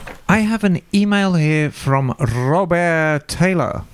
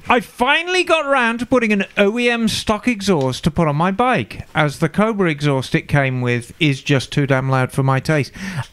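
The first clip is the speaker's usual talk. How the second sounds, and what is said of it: Put-on Birmingham accent. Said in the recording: “So I'll choose to read it in a Birmingham accent.”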